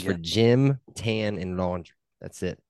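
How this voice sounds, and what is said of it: Poor put-on Australian accent. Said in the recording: “That's a horrible accent ... I was trying to not go like foreign. ... you're still thinking wombat”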